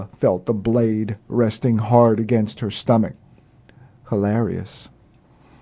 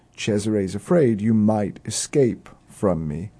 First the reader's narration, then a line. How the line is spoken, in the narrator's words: A small chuckle escaped the prince as he said